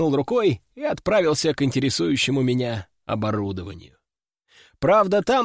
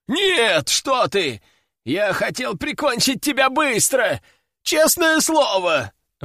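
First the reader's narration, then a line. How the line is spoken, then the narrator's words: Howl. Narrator (Russian): взвыл он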